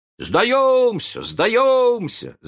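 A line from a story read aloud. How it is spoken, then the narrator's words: Group shouting. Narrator (Russian): закричали они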